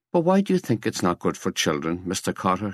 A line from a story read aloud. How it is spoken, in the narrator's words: she asked